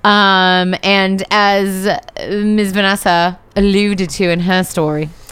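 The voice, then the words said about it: Put-on British accent. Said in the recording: “now you are being British... you got the wrong accent”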